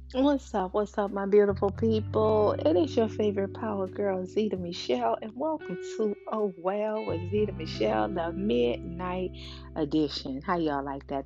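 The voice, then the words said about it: Radio announcer voice. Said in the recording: “That was my little radio voice”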